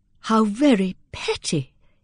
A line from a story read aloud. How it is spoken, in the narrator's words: exclaimed Dorothea indignantly